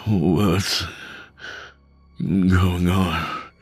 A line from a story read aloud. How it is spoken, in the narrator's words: He slurred